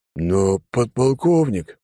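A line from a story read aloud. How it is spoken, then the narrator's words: Booming, forgetting rank. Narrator (Russian): прогудел майор, на секунду забыв о субординации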